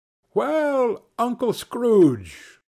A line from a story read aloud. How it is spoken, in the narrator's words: they cried